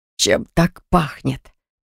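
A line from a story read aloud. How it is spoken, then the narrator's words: Nauseated young man's groan. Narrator (Russian): простонал парень, явно из последних сил сдерживая рвотные позывы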